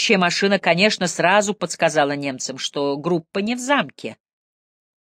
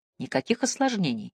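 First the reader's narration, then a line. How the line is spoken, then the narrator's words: Quiet question. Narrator (Russian): тихо спросил Мэлори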